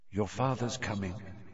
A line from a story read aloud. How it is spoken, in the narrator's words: she said quietly